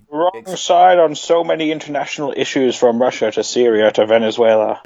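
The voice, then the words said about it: Poor impression of another person's voice. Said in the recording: “That's a terrible Gapes impression.”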